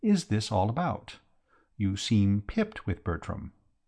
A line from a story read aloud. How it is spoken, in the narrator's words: I said gently